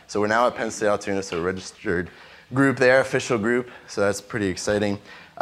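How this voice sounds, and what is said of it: Sick-sounding voice. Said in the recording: “I'm a little sick, so I apologize if my voice is bothering you.”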